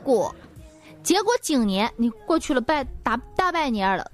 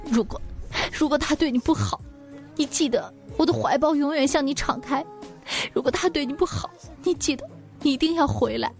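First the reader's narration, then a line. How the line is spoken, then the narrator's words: Tearful, weeping. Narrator (Chinese): 泪水连连……哭得比他还似的说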